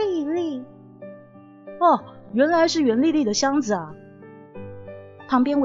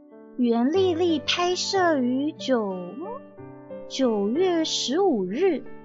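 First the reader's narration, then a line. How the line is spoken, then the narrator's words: Murmuring to himself. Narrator (Chinese): 他……喃喃自语的念道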